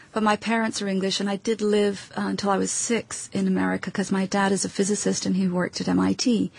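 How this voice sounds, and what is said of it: Mid-Atlantic accent. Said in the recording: “you really don't share a accent with anybody. It's some kind of your own... some people call it mid-Atlantic”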